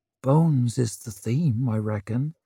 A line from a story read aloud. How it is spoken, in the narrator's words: muttered Scholler